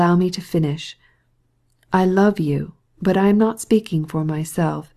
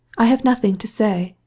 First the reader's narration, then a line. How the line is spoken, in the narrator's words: she added in a sprightly tone, scarcely hiding a smile